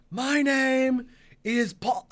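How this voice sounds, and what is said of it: Paul Heyman impression. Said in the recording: “my Paul Heyman impersonation.”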